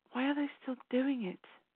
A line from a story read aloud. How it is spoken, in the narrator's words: She whispered to herself